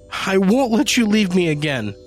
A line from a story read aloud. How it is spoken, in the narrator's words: she sobbed